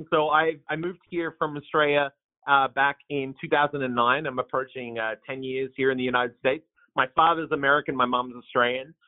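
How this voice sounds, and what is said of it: Slight twang, not local accent. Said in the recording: “I don't have a Portland accent, but it's a little bit of a twang.”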